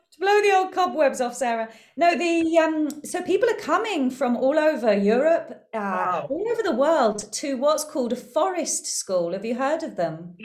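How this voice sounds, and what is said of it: UK English accent. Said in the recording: “your UK accent”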